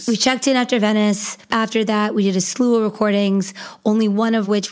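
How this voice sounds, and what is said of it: Hoarse, sick-sounding voice. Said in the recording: “my hoarse and sick voice”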